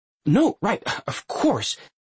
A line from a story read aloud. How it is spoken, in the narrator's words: Connor splutters, blushing